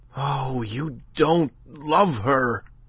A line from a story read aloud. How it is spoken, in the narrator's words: cried the other passionately